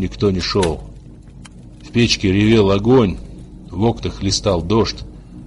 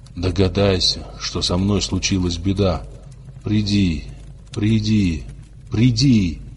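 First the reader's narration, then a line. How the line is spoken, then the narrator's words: Whispering. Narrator (Russian): шептал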